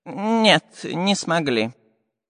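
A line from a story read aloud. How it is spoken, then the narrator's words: Saddened sigh. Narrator (Russian): огорченно вздохнул Семен Семенович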